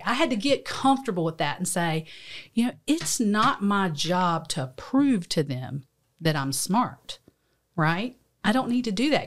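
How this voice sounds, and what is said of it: Southern American accent. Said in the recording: “I have a really Southern accent”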